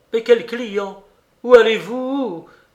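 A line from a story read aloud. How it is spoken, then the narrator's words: Moaned. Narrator (French): gémit Maurice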